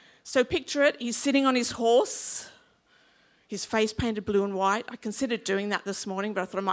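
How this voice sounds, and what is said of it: Usual voice. Nothing is said of it.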